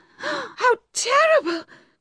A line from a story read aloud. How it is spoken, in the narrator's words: cried Bathsheba